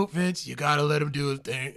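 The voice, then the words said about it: Imitates another person's voice, poorly. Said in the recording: “my awful Triple H impression.”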